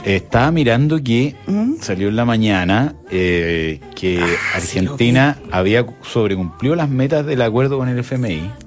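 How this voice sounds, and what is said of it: Argentine Spanish accent. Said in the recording (Spanish): “¿Por qué a propósito de Argentina? Ah, por el acento.”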